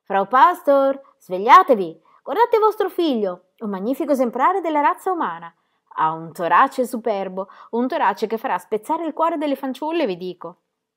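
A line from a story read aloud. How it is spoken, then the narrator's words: Scandalized shout into ear. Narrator (Italian): la esortò, sempre più scandalizzata, e piegandosi al di sopra della puerpera, le gridò all'orecchio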